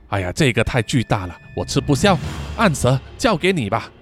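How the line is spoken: Hushed voice. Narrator (Chinese): 萧逸压低了声量，然后说

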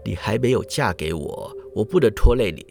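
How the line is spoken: Tender, gentle, sighing. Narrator (Chinese): 新郎就心下暗自叹息呀，以最温柔的语气说道

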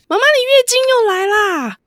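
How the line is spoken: Child shouting. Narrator (Chinese): 就会大喊

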